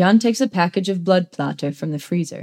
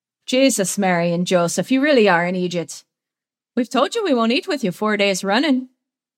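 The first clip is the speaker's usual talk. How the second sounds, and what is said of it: Put-on exaggerated Irish accent. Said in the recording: “His put on Irish accent is borderline offensive.”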